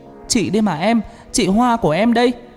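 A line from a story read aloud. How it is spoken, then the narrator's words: Hurried loud shout. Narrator (Vietnamese): Hoa vội hét lớn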